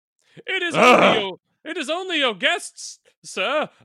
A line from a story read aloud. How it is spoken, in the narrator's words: I called out, desirously